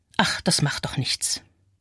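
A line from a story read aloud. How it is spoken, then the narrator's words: Murmuring. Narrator (German): Mich selbst höre ich murmeln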